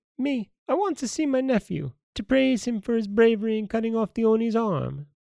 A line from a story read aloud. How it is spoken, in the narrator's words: The squeaky voice of his aunt, as it seemed, who was a very old woman, replied